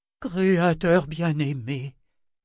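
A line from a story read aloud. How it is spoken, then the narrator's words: Sighed. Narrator (French): soupira Anna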